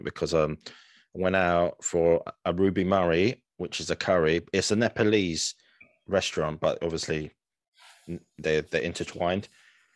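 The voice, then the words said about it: Tired-sounding voice. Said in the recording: “I sound a bit tired”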